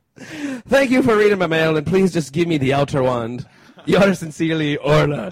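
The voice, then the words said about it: Put-on Irish accent. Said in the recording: “Only worthy of an Irish accent”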